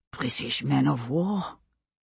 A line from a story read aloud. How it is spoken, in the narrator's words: Fergus said, his voice empty with shock